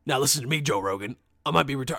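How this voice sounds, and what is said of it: Alex Jones impression. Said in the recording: “that's Alex Jones”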